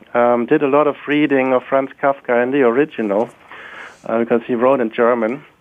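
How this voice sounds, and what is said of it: German accent. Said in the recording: “You may have guessed from my accent that I grew up in Germany”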